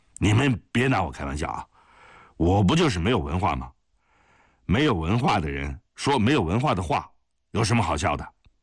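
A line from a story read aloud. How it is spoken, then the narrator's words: Sulky muttering. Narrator (Chinese): 霍英山不高兴了，耷拉下脑袋嘟嘟囔囔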